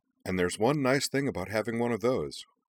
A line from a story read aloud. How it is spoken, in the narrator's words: said Iki cheerfully